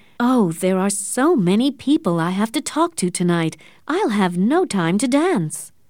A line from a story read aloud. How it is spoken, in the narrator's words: she said cheerfully